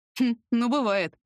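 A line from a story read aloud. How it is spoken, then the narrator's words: Snorting. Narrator (Russian): хмыкнул Лёшка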